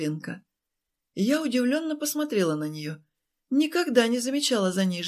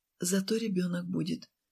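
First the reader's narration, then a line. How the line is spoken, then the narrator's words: Quiet. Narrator (Russian): тихо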